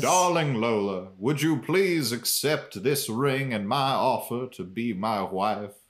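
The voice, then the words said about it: Put-on Southern accent character voice. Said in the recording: “Southern J Money ... that is his voice in this version of reality ... it's also very close to his voice in the show ... That was a good impression.”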